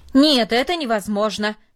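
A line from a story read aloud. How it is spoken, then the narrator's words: Loud and firm. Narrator (Russian): сказал он, наконец, громко и твердо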